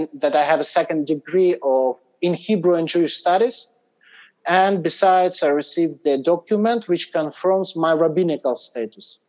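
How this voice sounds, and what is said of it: Fluent English, not fully British accent. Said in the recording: “very comprehensible. You're very fluent in English ... It did not, however, give you a totally British accent”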